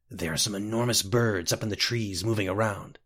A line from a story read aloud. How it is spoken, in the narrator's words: whispered Scotty